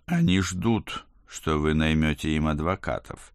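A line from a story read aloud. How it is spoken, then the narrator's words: Plain. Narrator (Russian): сказал я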